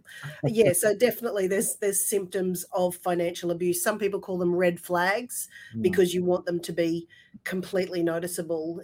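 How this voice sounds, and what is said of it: Breathless voice affected by a cold. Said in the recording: “the really sexy voice that I have right now because of my cold ... I don't usually sound quite this amazing, breathless”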